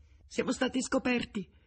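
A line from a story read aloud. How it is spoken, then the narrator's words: Exclaimed. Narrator (Italian): esclamò Nemeshek balzando in piedi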